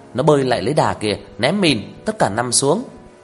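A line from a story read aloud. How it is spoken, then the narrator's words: Shouting. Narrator (Vietnamese): Ông đứng trên tảng đá hét lên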